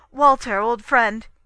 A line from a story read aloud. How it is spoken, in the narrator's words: he cried